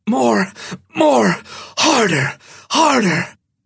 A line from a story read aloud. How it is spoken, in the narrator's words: the half-brute screamed out